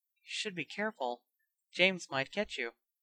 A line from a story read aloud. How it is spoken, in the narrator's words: Smiling slightly, murmured